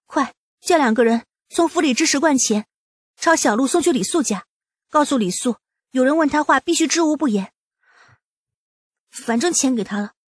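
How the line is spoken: Urgent, frightened. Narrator (Chinese): 东阳俏脸顿时煞白，急忙唤过府中侍卫

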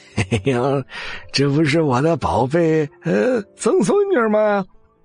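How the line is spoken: Cheerful chuckling. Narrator (Chinese): 徐成红乐呵呵的笑着

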